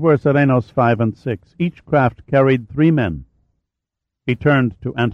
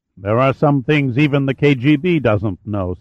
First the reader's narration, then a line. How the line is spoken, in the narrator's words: said the general